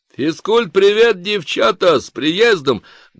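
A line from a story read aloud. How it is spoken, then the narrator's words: Loud hearty bark. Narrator (Russian): гаркнул кто-то из них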